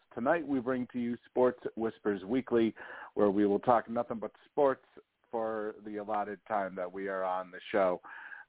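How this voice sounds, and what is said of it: Slightly scratchy voice. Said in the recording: “My voice is kind of a little scratchy, so we will go for as long as my voice will hold up.”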